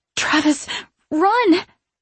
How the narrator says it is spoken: I gasp with whatever air is left inside my lungs

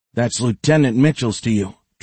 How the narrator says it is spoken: Trey said

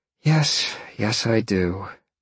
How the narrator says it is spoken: Jolene sighed and smiled

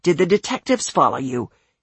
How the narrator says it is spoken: he snarled

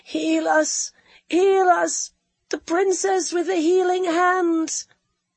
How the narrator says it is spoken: the weaker voices wailed on

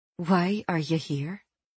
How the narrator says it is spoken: She whispered faintly

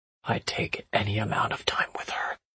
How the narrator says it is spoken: he whispered

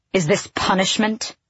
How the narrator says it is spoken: The words snapped out of her

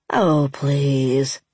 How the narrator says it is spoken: Indy drawled

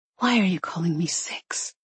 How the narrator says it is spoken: She whispered

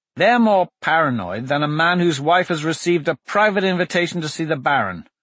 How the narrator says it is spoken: Blaze said

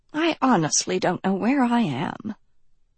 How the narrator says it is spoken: she murmured

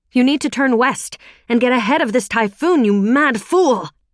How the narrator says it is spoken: shouted over the wind

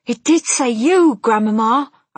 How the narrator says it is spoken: I cried

